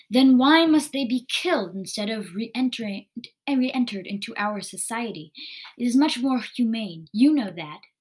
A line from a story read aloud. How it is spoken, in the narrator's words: Zavis spat back